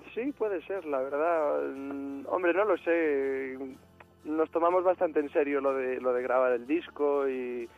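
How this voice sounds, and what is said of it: Galician Spanish accent. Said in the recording (Spanish): “vuestro acento gallego”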